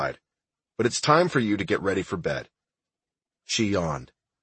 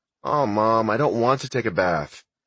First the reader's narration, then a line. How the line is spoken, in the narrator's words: Ashley moaned in protest